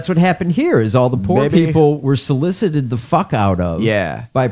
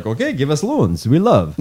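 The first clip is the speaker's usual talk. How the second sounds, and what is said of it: Put-on Greek accent. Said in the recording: “That's a good Greece dialect.”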